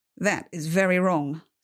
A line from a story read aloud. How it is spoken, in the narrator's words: Saul said